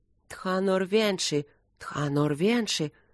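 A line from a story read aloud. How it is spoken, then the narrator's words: Fearful, awed muttering. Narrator (Russian): со страхом и благоговением бормотали наемники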